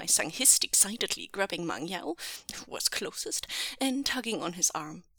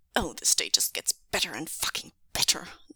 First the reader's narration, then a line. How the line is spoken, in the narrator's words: Zheng Cheng snarled